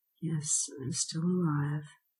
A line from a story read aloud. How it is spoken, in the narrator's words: I answered feebly